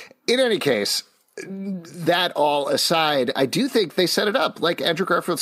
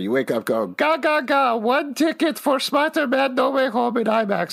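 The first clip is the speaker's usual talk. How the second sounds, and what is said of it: Babyish baby-talk voice. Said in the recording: “That was a baby accent. ... It's a baby accent. ... It seemed like it was like a little”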